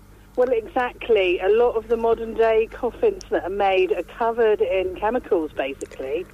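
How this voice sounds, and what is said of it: Noticeable accent. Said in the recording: “My accent, sorry.”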